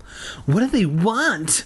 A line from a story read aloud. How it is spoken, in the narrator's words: Tabby cried